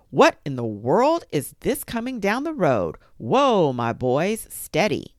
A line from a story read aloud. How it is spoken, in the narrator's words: Papa called out